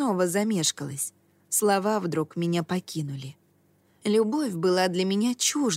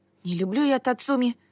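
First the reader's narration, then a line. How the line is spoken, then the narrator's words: Indignant exclamation. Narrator (Russian): воскликнула я, возмущенная одним этим предположением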